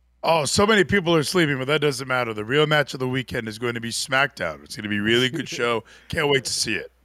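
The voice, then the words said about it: Imitates another person's voice. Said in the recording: “That Gino impression is definitely coming along.”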